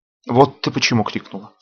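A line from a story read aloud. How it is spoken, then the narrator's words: Sigh. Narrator (Russian): вздохнул старшина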